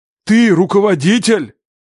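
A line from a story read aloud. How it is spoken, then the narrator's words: Shouting. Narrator (Russian): крикнул он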